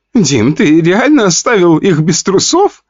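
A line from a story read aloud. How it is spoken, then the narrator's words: Laughing. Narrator (Russian): хохотала Вика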